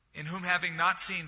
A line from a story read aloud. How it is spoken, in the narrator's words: Peter said